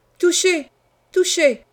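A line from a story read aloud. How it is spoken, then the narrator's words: Young man shouting joyfully. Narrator (French): criait mon jeune fou plein de joie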